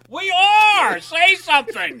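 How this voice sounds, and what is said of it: Yelling loudly. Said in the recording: “keep yelling over me”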